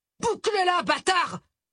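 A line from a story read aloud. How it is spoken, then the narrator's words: Big man yelling. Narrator (French): hurla le balèze à la batte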